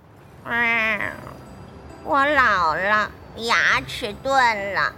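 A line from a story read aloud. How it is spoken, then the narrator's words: Sighing, glum cat. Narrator (Chinese): 愁眉苦脸的猫 先叹了一口气，然后 说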